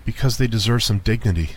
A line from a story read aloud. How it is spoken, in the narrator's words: I said, my voice beginning to waver